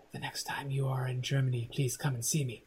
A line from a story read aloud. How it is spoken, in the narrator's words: said, whispers very quietly